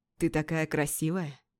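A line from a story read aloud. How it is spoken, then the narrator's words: Quiet speech. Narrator (Russian): негромко сказал он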